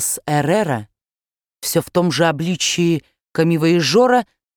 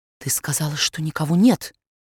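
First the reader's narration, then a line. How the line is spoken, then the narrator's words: Whisper in the ear. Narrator (Russian): шепнул он на ухо Европе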